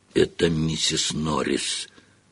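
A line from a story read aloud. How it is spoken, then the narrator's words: Breathed out. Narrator (Russian): выдохнул Рон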